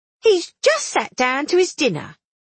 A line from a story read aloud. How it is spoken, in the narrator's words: she said crossly